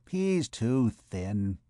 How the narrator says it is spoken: she mumbled between her teeth

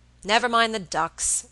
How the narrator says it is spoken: Robert said impatiently

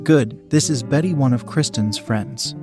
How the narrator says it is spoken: said

